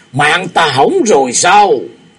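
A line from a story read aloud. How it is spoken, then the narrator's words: Panicked scream. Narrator (Vietnamese): Độc Thánh Lương Kỳ hét lên thất thanh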